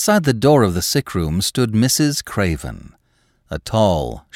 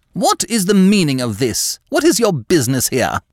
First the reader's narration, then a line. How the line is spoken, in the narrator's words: she said haughtily